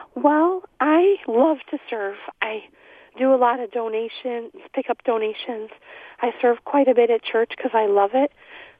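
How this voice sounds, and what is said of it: Hoarse, strained voice. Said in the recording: “I'm getting over laryngitis, so. ... You don't have to shout.”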